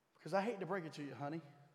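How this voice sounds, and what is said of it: Put-on Southern drawl. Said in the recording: “That's my southern drawl today.”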